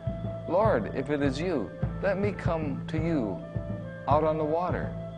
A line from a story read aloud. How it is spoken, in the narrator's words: Peter called out to Jesus and said